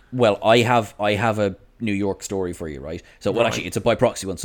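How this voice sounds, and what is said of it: Irish accent. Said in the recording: “Irish accent here, so Irish accent.”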